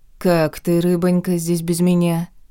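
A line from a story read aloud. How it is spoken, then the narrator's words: Contented purring. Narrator (Russian): промурлыкал довольный Грех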